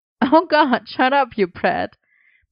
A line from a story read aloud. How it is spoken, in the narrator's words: Merlin laughed